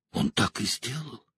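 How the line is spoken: Shuddering whisper. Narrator (Russian): прошептала Элейн, содрогаясь

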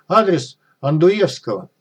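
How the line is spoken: Shouted out. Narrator (Russian): мужичок выкрикнул

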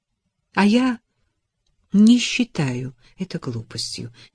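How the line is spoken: Quiet. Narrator (Russian): негромко сказала она

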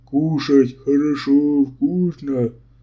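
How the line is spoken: Deep bass, big speaker. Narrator (Russian): Тот, что был крупнее остальных, даже добровольно пробасил

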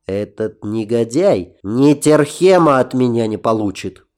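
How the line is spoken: Hiss. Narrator (Russian): прошипел я

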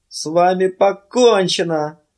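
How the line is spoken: Groaned. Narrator (Russian): простонал он

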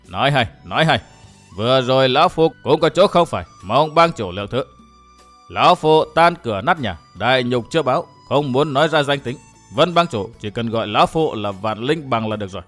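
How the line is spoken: Laughing loudly, old man. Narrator (Vietnamese): Hoàng Diện lão nhân cười lớn nói

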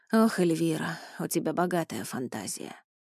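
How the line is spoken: Heavy sigh. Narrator (Russian): Он лишь тяжело вздохнул и сказал

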